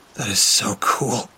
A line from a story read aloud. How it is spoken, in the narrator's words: I breathed